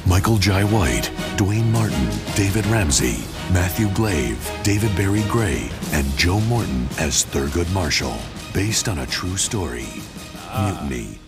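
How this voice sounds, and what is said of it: Movie trailer announcer voice. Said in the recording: “They got the movie announcer voice guy.”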